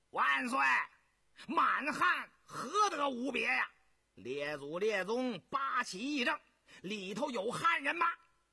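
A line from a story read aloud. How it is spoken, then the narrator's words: Loud shout. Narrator (Chinese): 永信大声叫道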